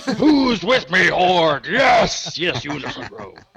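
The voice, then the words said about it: Imitates another person's voice. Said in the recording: “I'll just do my Chris Metzen voice”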